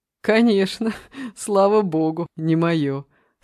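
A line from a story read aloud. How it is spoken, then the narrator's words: Laughing again. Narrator (Russian): снова рассмеялся Саша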